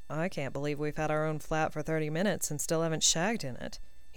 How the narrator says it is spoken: murmured in response

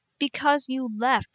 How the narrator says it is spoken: cried

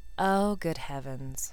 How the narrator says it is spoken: I said flatly

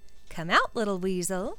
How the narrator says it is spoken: called cheerfully

